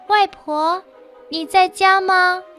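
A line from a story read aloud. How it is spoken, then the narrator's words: Frightened calling out. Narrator (Chinese): 小女孩害怕起来，她喊着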